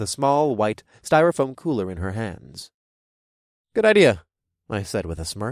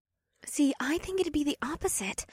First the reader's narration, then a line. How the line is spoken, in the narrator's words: Janine whispered back